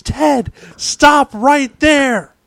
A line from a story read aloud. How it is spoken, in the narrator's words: yells